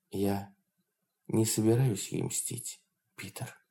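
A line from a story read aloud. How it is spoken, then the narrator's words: Quiet speech. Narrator (Russian): Лоон тихо произнесла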